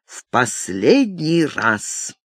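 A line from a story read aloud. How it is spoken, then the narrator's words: Icy cold tone. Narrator (Russian): произнес ледяным тоном Виктор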